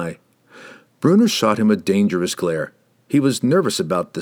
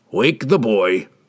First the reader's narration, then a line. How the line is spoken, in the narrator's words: Brunner growled